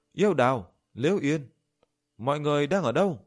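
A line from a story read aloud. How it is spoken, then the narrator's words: Loud raised voice. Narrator (Vietnamese): Diệp Chi Thu cao giọng giống to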